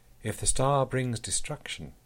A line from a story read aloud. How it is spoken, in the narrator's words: he said softly